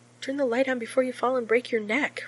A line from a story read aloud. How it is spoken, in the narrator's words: Rodney gasps, tearing his mouth away from John's to breathe hot across John's neck